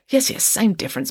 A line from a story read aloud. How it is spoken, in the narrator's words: muttered Friday